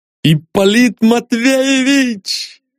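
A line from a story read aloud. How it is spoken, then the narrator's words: Shouted. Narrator (Russian): закричал он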